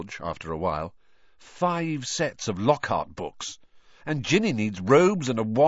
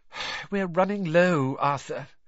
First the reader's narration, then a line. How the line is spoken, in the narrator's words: she sighed